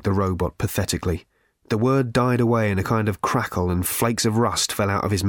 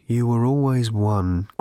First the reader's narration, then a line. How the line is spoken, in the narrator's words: groaned the aged husk of the robot